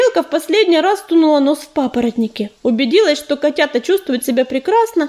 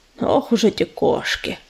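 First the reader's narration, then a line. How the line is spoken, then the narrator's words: Muttered through teeth. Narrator (Russian): процедил белохвост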